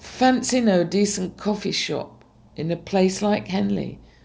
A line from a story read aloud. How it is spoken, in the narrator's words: Belinda sighed